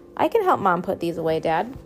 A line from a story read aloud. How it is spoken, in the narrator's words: chirped